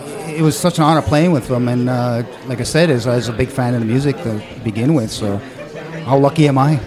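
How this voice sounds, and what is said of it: Upper Midwest Scandinavian-tinged accent. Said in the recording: “You got your accent. ... some people have a Scandinavian accent. ... I was catching some of that”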